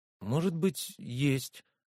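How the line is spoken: Uncertain suggestion. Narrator (Russian): неуверенно предположила Вера

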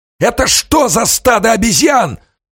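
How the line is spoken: Hoarse, furious shout. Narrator (Russian): хрипло крикнул штабс-капитан, яростно озираясь

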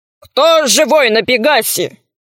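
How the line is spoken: Monster's thunderous question. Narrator (Russian): Громовым голосом спросило чудовище

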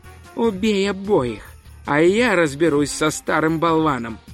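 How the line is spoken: Completely calm. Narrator (Russian): Хирена совершенно спокойно сказала

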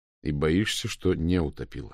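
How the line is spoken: Plain. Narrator (Russian): сказал Мау

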